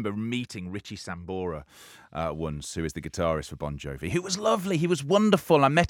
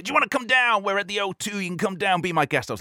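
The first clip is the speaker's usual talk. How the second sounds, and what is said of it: Put-on American accent. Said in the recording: “I'm doing an American accent here as an impression”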